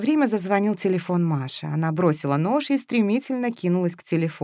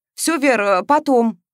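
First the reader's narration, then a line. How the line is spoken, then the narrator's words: Barking. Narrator (Russian): рявкнула Маша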